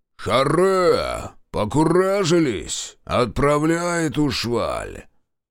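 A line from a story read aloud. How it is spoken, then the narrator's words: Booming, cracked shout. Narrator (Russian): Прокричал краснорожий гулким надтреснутым голосом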